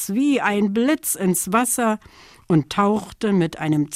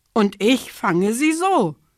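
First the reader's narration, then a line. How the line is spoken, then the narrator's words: Kingfisher calling out. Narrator (German): rief der Eisvogel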